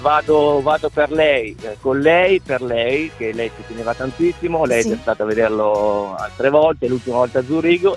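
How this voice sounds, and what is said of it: Comacchio regional Italian accent. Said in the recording (Italian): “l'accento rimane mio. ... Rimane comacchiese.”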